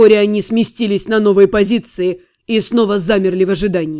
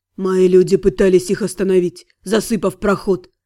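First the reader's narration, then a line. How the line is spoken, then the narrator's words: Whisper. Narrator (Russian): прошептал Фарен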